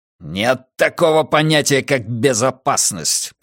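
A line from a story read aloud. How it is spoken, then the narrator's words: Growl. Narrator (Russian): прорычал Каз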